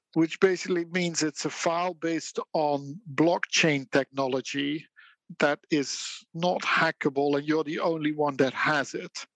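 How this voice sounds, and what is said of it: Dutch accent. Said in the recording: “my Dutch accent”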